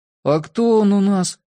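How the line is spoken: Glum question. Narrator (Russian): уныло спросил Скип

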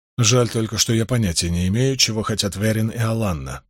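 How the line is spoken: Muttered. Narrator (Russian): пробормотал он

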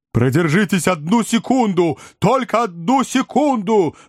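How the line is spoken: Yelling. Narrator (Russian): вопил мистер Снотгресс

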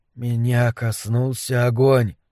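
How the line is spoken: Whisper. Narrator (Russian): прошептал Дебона

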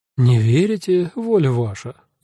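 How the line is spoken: Tired voice. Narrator (Russian): устало сказала Нонна

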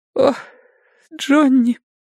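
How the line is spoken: Sobbing, strangely muffled voice. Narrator (Russian): всхлипнула она странно приглушенным голосом

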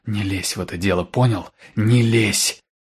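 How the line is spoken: Hissing commanding whisper. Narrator (Russian): Свистящим шепотом приказала она

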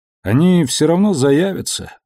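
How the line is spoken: Sighing. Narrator (Russian): вздохнул он

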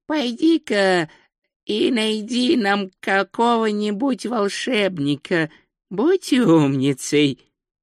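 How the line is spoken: Hoarse croak after breath. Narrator (Russian): Ринсвинд сделал глубокий вдох и прохрипел

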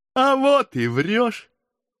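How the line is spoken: Happy loud laughter. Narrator (Russian): Счастливо захохотал хлопец

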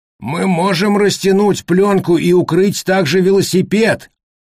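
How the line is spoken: Old man shouting. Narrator (Russian): крикнул старик-ветеринар

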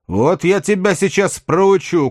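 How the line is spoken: Shouting. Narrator (Russian): крикнул он

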